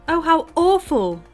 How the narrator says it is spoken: cried James

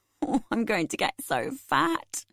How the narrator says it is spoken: said laughingly

